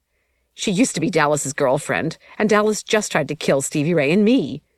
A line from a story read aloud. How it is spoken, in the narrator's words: Shawnee blurted